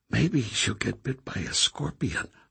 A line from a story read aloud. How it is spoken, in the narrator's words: Marta muttered